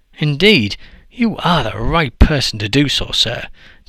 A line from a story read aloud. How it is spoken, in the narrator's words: Dele and Deji exclaimed with gladness